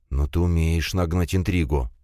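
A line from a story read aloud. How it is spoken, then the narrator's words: Heavy sigh. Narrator (Russian): тяжко вздохнул Лис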